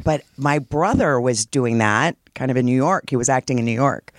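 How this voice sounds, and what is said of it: Low husky smoky voice. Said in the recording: “the kind of like Brenda Vaccaro, Lauren Bacall like thing going on ... I did smoke for years”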